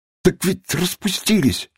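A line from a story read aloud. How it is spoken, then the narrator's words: Wailing, near tears. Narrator (Russian): чуть не рыдая, возопил обвиняемый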